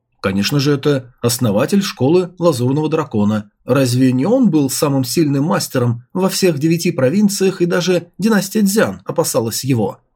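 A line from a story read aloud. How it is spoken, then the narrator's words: Plain. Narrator (Russian): ответил Чу Фэн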